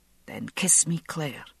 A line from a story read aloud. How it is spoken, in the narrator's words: he whispered